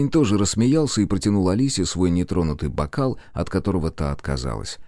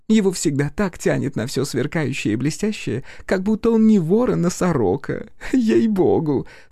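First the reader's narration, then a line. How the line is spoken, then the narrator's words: Said, then laughing. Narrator (Russian): сказала она и расхохоталась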